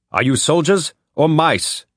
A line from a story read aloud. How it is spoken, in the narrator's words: he shouted